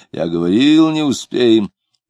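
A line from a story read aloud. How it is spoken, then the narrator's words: Angry growling bass. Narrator (Russian): зарычал сердитым басом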